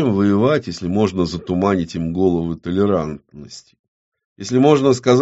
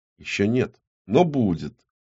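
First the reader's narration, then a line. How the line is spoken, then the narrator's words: Soft laugh. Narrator (Russian): Ястребиный негромко рассмеялся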